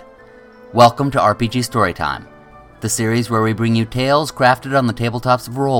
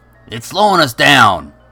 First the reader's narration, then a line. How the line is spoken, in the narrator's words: Jack grumbled